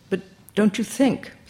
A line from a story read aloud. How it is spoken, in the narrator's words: Sarah's voice wavered anxiously